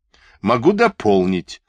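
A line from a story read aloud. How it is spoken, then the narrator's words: Laughing. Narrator (Russian): засмеялся Ветлинский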